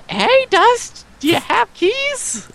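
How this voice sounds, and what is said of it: Imitates a girl's voice. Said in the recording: “That's my impression of ... girl.”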